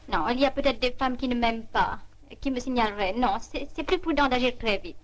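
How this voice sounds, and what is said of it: Poorly faked English accent. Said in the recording (French): “l'accent de ... dans cet extrait est un accent de jeu, hein, bien entendu. Elle feint l'accent, enfin, pas très bien d'ailleurs... L'accent anglais. Elle jouait pas formidablement.”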